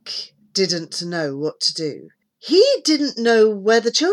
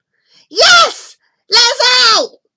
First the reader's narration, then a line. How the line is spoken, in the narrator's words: yelled Debbie and Kieran